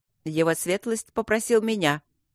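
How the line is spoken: Sudden sharp interjection. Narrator (Russian): неожиданно резко встрял Доулсон-младший

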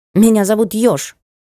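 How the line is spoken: Indignant snort. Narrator (Russian): фыркнул кошак

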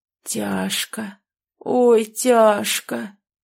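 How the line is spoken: Creaky, strained voice. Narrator (Russian): снова проскрипел Петрович

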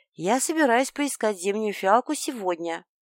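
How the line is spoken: Mysteriously mocking sing-song. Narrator (Russian): Ректор улыбнулся в ответ, у него это вышло таинственно насмешливо, после чего практически пропел

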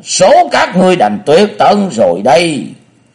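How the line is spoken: Screaming. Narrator (Vietnamese): Phong Tăng Nhất Phàm thét lên

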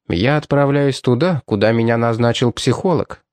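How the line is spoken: Even, level voice. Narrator (Russian): сказал он ровным голосом

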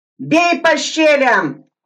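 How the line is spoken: Shout. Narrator (Russian): кричал Сайко

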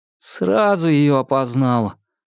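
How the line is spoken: Crushed, despondent young man. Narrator (Russian): убитым тоном ответил молодой оперативник

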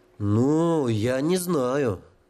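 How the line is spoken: Drawling. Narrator (Russian): протянул потлатый

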